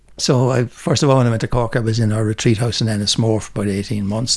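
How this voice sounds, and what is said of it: Mild Dublin Irish accent. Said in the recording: “You still kind of have a Dublin accent. ... There's probably all sorts of accents in there.”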